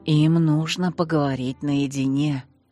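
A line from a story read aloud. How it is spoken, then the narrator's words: Barely audible whisper. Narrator (Russian): едва слышно шепнула тетушка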